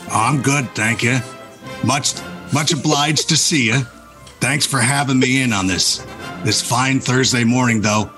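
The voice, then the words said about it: Gravelly Western movie-star impression. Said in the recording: “do that Eastwood voice for the whole segment”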